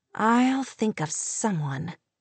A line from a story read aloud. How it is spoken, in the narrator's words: Kate murmured, her determination fierce